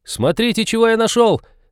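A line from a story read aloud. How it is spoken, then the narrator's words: Sudden yell. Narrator (Russian): Внезапно заорал Натан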